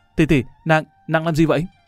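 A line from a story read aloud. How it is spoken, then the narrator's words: Startled shocked cry. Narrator (Vietnamese): Lâm Văn Vinh giật mình hả một tiếng, cả kinh la lên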